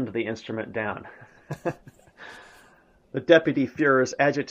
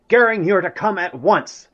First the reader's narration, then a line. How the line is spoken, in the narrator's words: Hitler shouted